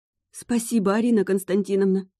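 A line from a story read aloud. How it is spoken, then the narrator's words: Trembling babble. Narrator (Russian): дрожа всем телом, пролепетала она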